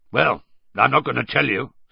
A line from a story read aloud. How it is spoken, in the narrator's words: said Moody gruffly